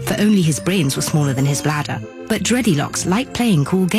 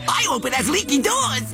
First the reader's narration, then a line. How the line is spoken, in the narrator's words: cried the second